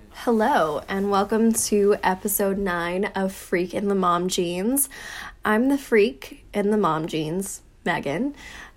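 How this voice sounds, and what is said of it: Sick, congested, sniffly voice. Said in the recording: “my voice sounds kind of off. I've been sick ... don't mind the sniffles and, you know, maybe the occasional really gross like cough”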